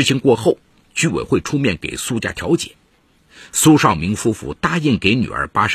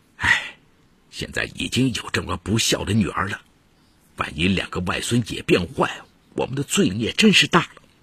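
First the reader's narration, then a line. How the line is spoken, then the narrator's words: Lamenting. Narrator (Chinese): 苏少明感叹地说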